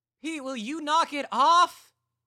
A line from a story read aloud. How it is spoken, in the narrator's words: Katie yelled back at him from the kitchen